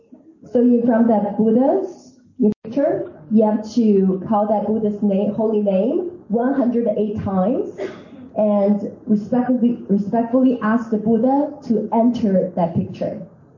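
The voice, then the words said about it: American-accented English. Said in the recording (Chinese): “他是美国口音，讲的人家都听不懂”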